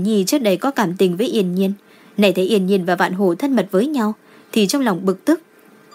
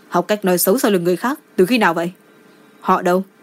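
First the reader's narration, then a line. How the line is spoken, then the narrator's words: Stern scolding. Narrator (Vietnamese): Đỗ Hận Ngôn nghiêm giọng trách mắng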